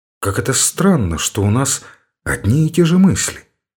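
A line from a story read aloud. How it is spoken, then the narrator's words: Quiet. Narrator (Russian): сказал он тихо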